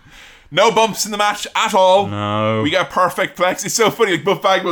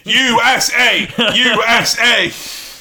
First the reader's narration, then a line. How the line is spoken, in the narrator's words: really quiet, sat there shouting